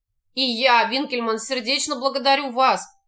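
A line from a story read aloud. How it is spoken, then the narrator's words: Even, calm, restrained. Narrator (Russian): проговорил Шарль своим ровным, спокойным и сдержанным голосом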